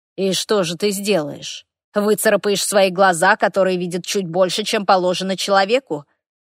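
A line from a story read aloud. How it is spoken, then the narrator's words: Low growl. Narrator (Russian): Из моей груди вырвалось глухое рычание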